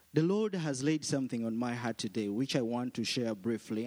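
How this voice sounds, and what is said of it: African-accented English. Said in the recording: “my African accent”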